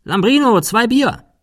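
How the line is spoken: Calling inside. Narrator (German): rief nach innen

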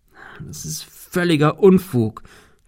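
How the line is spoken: Stammering. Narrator (German): stammelte er

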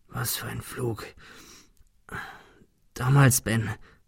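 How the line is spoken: Stammered. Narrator (German): stammelte er

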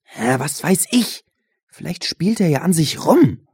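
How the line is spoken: Hissed. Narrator (German): zischte Benjamin Josh an

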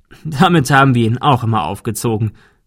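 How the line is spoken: Laughing. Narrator (German): der Notar lachte

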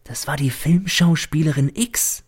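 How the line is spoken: Servant whispering. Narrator (German): flüstert mir der Diener zu

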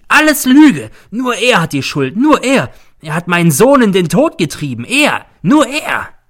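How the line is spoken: Shrieking. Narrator (German): kreischt sie

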